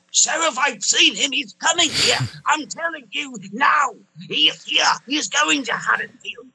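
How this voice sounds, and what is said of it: Imitates a movie character's voice. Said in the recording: “that was a killer impression”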